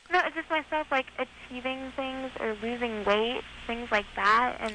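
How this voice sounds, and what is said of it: High little-girl-like voice. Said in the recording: “you got that little girl voice ... So you just have the little girl voice on your own.”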